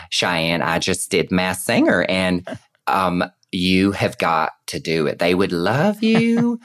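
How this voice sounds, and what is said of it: Imitates another person's voice. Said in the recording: “that's a very good impression of Leslie Jordan”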